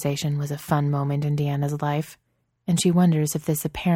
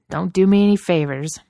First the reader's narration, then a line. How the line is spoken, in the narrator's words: Bobby grumbles